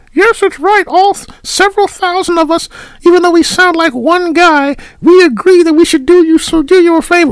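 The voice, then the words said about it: Bad put-on high voice. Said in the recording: “you sounded like me doing a really bad high voice.”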